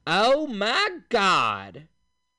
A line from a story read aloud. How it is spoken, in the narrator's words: a woman's voice exclaiming in a nasal southern accent